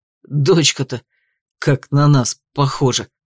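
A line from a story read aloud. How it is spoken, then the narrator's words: Declared, nearly stammering. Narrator (Russian): заявил Данте, чуть ли не заикаясь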